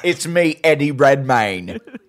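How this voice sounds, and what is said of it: Over-the-top British accent. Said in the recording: “Just the most over the top British accent.”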